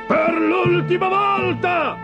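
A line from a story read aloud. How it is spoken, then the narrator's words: Yelled. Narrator (Italian): urlò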